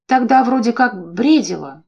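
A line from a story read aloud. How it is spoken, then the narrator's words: Muttered. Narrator (Russian): буркнула подруга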